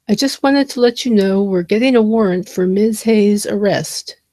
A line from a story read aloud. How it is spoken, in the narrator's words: said